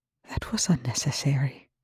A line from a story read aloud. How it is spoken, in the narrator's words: he whispered, with a dignity